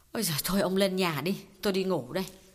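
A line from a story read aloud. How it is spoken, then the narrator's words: Sighing. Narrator (Vietnamese): Chị Kiều thở dài bảo Khái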